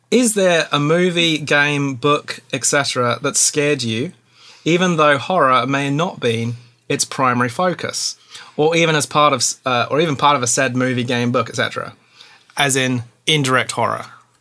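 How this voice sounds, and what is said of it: Put-on Australian accent. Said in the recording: “you have to ask the question in an Australian accent.”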